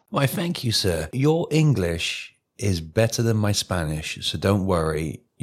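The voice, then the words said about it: British accent. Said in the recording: “I love the British accent. Your accent is really nice.”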